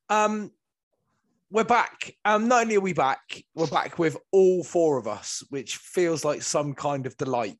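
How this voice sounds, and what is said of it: West Country English accent. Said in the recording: “All with a West Country accent.”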